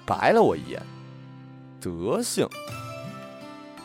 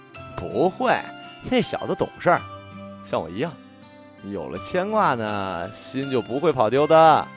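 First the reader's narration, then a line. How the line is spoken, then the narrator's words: Playful, grinning. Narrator (Chinese): 我嬉皮笑脸的说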